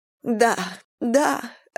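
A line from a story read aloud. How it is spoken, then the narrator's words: Sobbing. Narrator (Russian): рыдала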